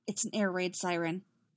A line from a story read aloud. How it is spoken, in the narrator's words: said Irte, her voice remarkably calm